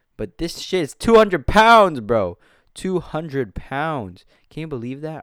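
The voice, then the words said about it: Loud, yelling delivery. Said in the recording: “if I'm yelling ... I think I got a little too close to the mic”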